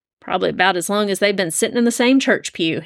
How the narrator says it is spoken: thought, chuckling

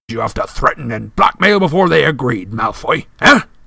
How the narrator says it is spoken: he roared

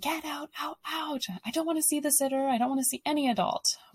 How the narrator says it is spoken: And your kid is screaming

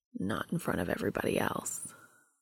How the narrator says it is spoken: There's suddenly a significant heat behind Castiel's eyes when he drops his voice to a whisper to say

